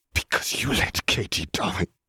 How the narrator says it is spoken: Harry whispered

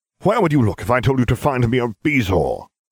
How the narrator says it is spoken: He snapped

